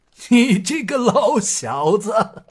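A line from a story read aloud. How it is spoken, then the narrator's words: Coarse street-rough talk. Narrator (Chinese): 堂堂一个江湖丐帮帮主，说起话来像一个市井之徒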